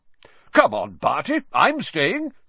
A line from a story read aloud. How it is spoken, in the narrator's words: said Bagman, brightly